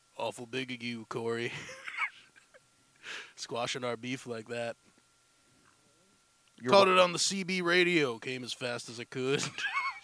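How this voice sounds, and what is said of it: Sam Elliott impression. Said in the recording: “my Sam Elliott impression ... the real Sam Elliott”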